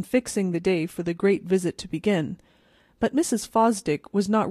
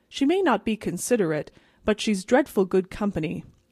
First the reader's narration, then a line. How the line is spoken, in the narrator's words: said Mrs